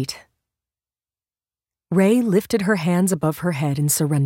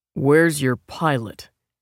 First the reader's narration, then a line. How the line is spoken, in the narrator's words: the old man growled